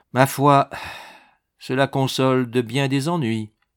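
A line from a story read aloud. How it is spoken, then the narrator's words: Sighing. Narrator (French): fit-il avec un soupir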